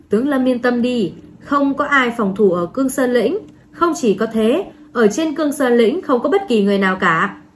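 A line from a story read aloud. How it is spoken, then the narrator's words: Laughing loudly. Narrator (Vietnamese): Trình Sơn Hà cười lớn, vẫy tay liên tục nói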